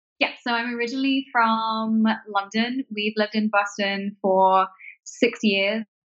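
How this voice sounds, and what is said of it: London accent. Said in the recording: “your accent”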